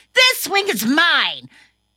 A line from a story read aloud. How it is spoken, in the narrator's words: he got angry and yelled